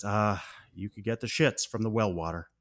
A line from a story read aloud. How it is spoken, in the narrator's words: under his breath, Wally says